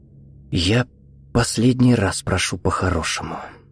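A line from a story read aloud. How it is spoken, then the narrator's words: Quiet. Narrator (Russian): тихо сказал Виктор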